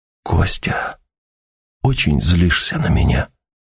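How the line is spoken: Whispered. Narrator (Russian): прошептала Ася

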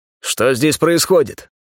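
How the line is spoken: Menacing question. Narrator (Russian): Грозно осведомился я

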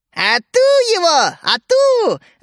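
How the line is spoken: Gleeful women shouting. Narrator (Russian): радостно хлопая в ладоши, кричали мерзкие женушки патриарха

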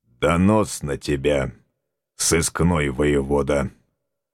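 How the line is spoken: Gruff grumble. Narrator (Russian): буркнул он

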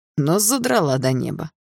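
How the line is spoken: Snorting. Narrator (Russian): хмыкнул он

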